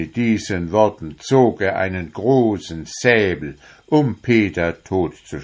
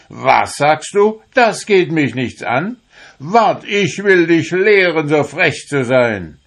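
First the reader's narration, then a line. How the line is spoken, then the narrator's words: Furious shout. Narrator (German): wurde der Herr erst blitzböse und schrie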